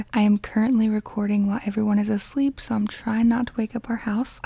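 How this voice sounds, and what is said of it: Low, quiet voice. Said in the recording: “my voice is a little low or if I sound different”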